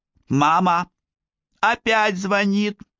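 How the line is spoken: Small child shouting from below. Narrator (Russian): крикнул малыш Юаким с нижней площадки

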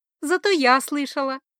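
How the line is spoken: Joyful. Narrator (Russian): радостно заявила принцесса

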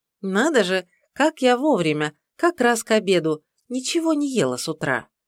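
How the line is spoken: Cheerful. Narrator (Russian): проговорила весело

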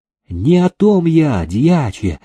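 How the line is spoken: Gentle reply. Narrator (Russian): ласково отозвался Ивашка

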